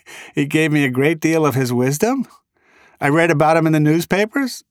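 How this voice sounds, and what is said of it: Rhode Island accent. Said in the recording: “my Rhode Island accent ... as I pronounce them in the way we do in Little Rhodey”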